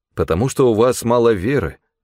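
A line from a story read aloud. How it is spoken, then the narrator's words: Plain. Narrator (Russian): ответил он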